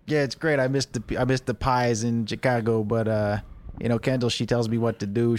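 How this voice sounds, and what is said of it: Put-on Chicago accent. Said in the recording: “Can you do a Chicago accent?”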